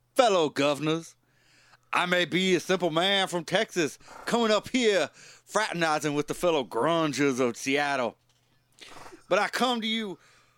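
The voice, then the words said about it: Put-on Texan accent. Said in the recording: “I'm going to drop the accent.”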